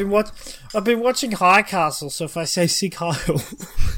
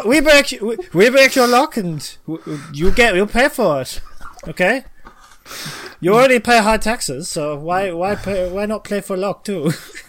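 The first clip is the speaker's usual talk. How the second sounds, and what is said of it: Poor put-on German accent. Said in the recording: “Questionable German accent ... I don't know how to do a German accent”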